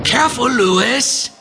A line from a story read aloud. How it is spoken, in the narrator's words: shouted Matisak from two cells away